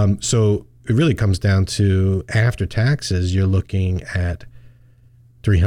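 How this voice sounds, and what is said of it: Usual voice. Nothing is said of it.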